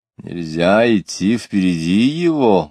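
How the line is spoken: Loud question, dignified man. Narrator (Russian): громко спросил осанистый человек со множеством орденов

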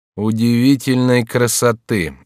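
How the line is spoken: Gloomy answer. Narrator (Russian): отвечал герцог мрачно

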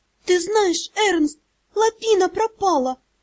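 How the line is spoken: Frightened babbling. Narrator (Russian): залепетала она

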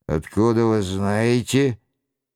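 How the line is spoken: Grumbling. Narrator (Russian): буркнул Роншероль

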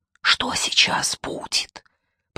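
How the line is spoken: Whispering. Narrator (Russian): прошептал я

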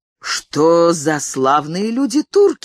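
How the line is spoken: Exclaiming. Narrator (Russian): воскликнул я

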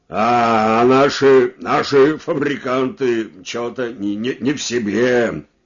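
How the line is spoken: Plain. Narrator (Russian): сказал Елизаров

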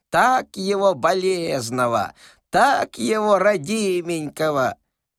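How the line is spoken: Old woman calling from above. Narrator (Russian): бабушка покрикивала с антресолей

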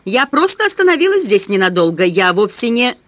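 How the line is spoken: Loud, over barking dogs. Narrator (Russian): стараясь перекричать собачий лай, громко ответила

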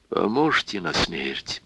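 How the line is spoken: Quiet. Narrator (Russian): тихо сказал Евсей

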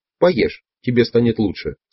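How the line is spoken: Plain. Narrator (Russian): сказал он

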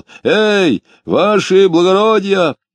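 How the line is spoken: Shouted. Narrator (Russian): закричал

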